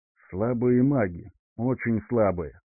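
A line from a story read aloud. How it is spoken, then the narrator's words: Grumbling. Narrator (Russian): проворчал Эдвин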